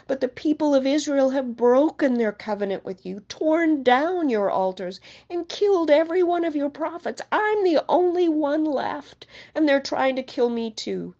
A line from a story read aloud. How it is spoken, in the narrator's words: cried